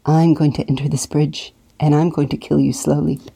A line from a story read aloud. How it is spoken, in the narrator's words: I murmured low